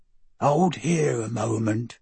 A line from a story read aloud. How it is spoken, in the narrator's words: Abraham whispered